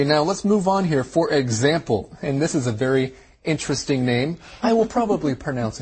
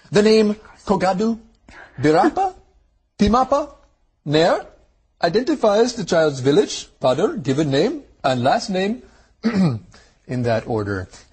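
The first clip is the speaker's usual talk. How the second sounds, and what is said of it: Imperfect put-on Indian accent. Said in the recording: “My Indian accent needs a little work.”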